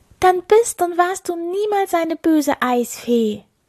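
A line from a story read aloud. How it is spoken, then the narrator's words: Exclaiming. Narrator (German): rief Ilvi aus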